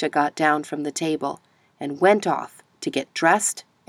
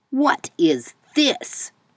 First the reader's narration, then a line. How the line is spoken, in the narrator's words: roared